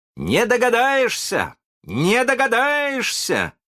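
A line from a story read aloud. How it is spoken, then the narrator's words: Proud shouting. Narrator (Russian): кричал с гордостью Питер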